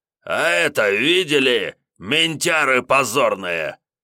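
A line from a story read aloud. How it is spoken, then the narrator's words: Loud bark. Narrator (Russian): широко разевая пасть, рявкнул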